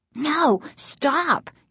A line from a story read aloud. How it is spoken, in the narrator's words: Casey cried